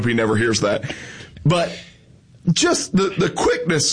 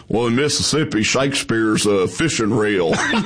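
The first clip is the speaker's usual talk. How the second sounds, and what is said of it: Imitates another person's voice. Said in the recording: “that was a horrible impersonation.”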